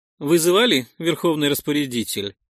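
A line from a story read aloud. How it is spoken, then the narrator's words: Flat emotionless voice. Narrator (Russian): спросила она безэмоциональным голосом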